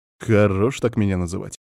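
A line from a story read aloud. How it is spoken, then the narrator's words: Displeased grumble. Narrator (Russian): недовольно буркнул я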